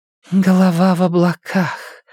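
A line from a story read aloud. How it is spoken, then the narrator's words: Breathy, woman. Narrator (Russian): выдохнула женщина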